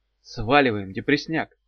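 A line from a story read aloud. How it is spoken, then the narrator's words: Hoarse whisper. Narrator (Russian): шепнула Дав, с трудом узнавая свой севший голос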